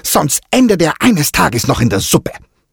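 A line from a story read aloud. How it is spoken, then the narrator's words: Hissing angrily. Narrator (German): fauchte sie unentwegt zu Diego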